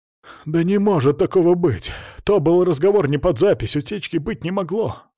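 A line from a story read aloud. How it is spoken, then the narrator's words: Guilty whining over phone. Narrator (Russian): скулил Хайпенко в трубку, как нашкодивший первоклашка, оправдывавшийся перед учителем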